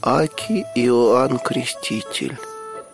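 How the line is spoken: Hoarse squeak. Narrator (Russian): сипло пискнул кто-то

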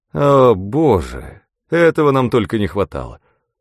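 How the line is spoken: Groan. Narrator (Russian): простонал Гарсия

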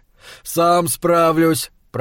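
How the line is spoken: Husband grumbling. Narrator (Russian): проворчал муж

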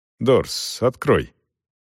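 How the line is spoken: Soft-spoken. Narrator (Russian): Селдон негромко проговорил

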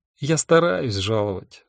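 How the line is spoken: Sighed. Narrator (Russian): вздохнул я

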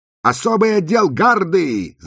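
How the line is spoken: Shout. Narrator (Russian): закричала Розали

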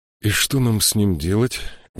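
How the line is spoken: Quiet sighing, to himself. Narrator (Russian): Вздохнув, тихо проговорил Джошуа, будто обращаясь к самому себе

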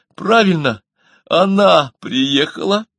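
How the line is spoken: Joyful exclamation. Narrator (Russian): Анатолий Борисович неожиданно обрадовался и воскликнул

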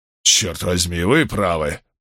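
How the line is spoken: Muttered after pause. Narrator (Russian): пробормотал он чуть погодя

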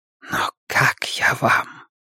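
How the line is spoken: Whisper. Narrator (Russian): прошептал он

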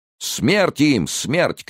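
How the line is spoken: Crowd shouting. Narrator (Russian): кричали 50 тысяч глоток

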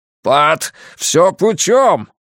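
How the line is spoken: Loud shout. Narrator (Russian): громко кричит падла

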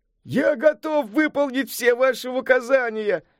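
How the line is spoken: Joyful exclamation, foolish man. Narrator (Russian): радостно воскликнул дурень

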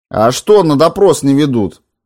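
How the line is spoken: Loud question. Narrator (Russian): спросил Морозов громко

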